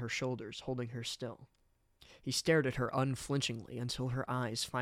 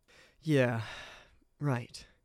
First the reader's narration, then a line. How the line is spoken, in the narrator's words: Byleth replied nervously